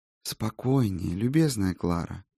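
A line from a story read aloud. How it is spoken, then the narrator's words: Quiet, calm voice. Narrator (Russian): прежним негромким голосом проговорил эльф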